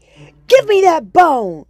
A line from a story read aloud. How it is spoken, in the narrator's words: yelled Wolf